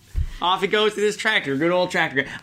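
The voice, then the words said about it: Put-on Southern accent. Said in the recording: “I don't know why I just gave him a southern accent”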